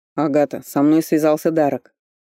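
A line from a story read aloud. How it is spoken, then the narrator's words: Stern. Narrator (Russian): строго проговорил Фарлей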